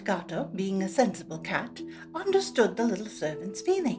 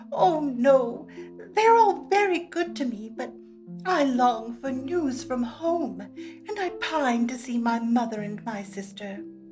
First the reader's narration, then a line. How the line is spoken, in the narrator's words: She burst into tears and answered between her sobs